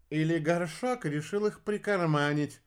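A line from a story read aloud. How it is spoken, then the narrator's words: Snorting. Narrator (Russian): фыркнул обедолов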